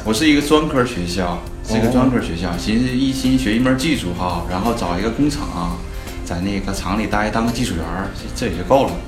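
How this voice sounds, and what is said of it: Northeastern Chinese accent. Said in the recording (Chinese): “我是东北人。...听口音咱们都大家都能听出来。”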